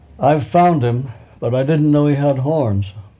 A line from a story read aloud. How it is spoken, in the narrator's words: he cried